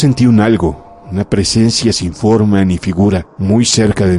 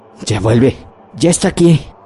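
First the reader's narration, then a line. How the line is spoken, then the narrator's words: Choked with horror. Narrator (Spanish): con voz ahogada de horror indecible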